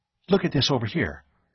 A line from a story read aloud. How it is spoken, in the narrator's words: she was clamoring excitedly